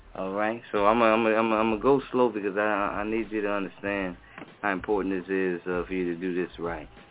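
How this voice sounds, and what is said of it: Slow, sultry seductive voice. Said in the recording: “I got my sexy voice on right now”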